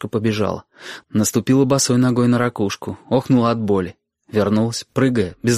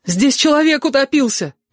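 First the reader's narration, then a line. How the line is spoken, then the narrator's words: Girl's shout. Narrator (Russian): крикнула Сашка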